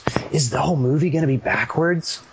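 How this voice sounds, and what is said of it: Weirdly hopeful stage whisper. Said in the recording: “in a weirdly hopeful voice, stage whispers”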